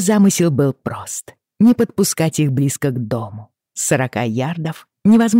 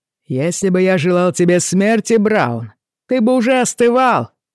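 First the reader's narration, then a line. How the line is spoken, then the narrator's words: Shouted reply. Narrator (Russian): крикнул в ответ Джейми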